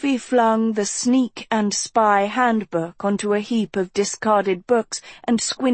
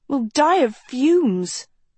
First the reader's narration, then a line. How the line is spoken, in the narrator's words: Sophie moaned